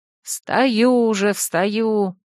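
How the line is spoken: Grumbling mutter. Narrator (Russian): буркнула я

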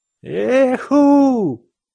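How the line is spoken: Madman's shout. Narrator (Russian): закричал ненормальный

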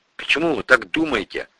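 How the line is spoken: Mumbling. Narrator (Russian): промямлил

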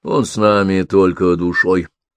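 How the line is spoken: Dry, curt retort. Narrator (Russian): сухо отрезал Бише

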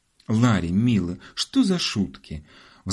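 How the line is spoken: Pleading mother. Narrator (Russian): взмолилась мама

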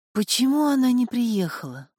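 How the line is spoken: Sighing. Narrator (Russian): вздохнул

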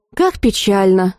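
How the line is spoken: Sighing. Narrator (Russian): вздохнула я

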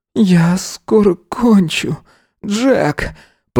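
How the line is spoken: Moaning, losing control. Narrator (Russian): простонал Эзра, понимая, что контролировать себя почти невозможно

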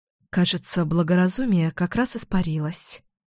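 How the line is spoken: Muttered. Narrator (Russian): пробормотала я

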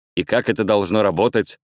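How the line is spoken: Plain. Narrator (Russian): спросил Рорк

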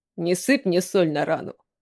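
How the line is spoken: Muffled mumble into floor. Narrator (Russian): пробормотал, уткнувшись лицом в пол

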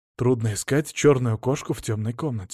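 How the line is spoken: Sigh. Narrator (Russian): вздохнул Алексей

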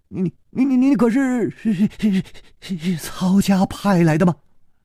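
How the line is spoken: Trembling young man. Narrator (Chinese): 那个少年颤声说

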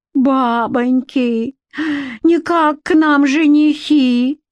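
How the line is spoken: Old woman's delighted shriek. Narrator (Russian): взвизгнула от восторга старуха

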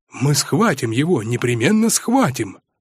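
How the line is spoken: Youthful heated exclamation. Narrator (Russian): С отроческой запальчивостью воскликнул Митя

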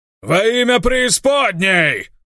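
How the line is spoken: Yelled. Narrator (Russian): Заорал Авадон

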